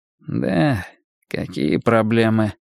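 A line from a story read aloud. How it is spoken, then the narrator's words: Mumbling. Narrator (Russian): промямлил Лёха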